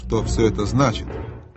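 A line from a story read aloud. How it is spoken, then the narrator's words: Menacing question. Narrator (Russian): грозно спросила королева колдунью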